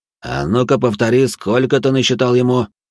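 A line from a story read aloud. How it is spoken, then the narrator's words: Through gritted teeth. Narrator (Russian): Трактирщик процедил сквозь зубы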